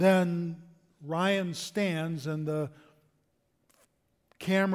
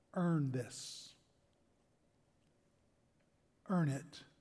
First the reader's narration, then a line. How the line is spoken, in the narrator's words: he whispers in Private Ryan's ear